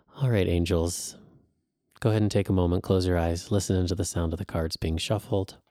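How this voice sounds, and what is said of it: Soft, soothing ASMR-style voice. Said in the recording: “I have a great ASMR voice”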